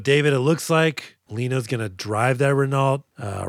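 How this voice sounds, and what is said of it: Usual voice. Nothing is said of it.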